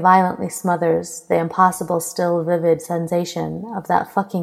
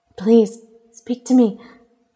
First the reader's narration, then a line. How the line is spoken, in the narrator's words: she pleads, choking off a sob